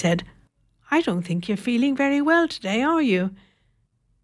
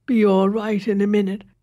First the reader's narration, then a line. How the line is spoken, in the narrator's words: he said thickly